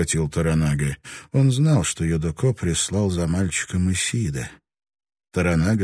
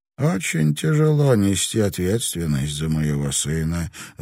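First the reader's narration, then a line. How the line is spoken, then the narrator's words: Sighing. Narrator (Russian): вздохнул Юдоко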